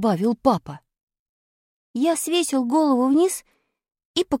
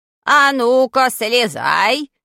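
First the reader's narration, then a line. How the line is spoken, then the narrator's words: Menacing grandfather's voice. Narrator (Russian): грозным голосом сказал дедушка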